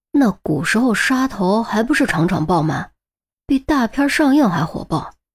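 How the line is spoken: Muffled mumble. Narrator (Chinese): 韩淼捂着嘴嘟囔了一句

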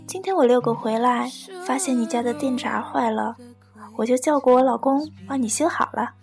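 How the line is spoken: Smiling, pleased. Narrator (Chinese): 邻居笑眯眯地说

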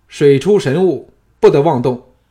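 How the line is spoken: Loud commanding shout. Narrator (Chinese): 小盘大声喝止，喊道

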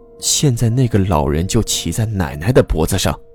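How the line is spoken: Whispering in ear. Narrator (Chinese): 安安凑到阿月的耳边，小声说

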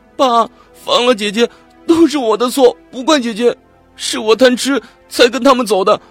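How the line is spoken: Crying. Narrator (Chinese): 哭着说

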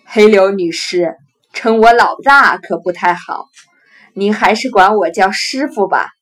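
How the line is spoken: Chuckling. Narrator (Chinese): 当家人呵呵笑道

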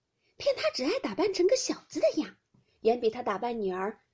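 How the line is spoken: Many laughing. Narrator (Chinese): 众人都笑道

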